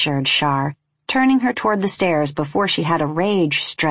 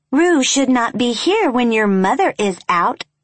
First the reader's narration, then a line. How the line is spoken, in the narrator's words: Tate said in an uptight fish voice